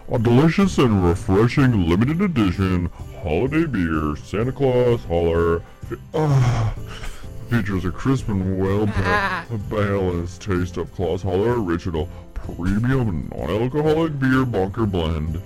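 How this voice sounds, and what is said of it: Santa Claus impression. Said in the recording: “Read it like Santa Claus ... He does a good impression.”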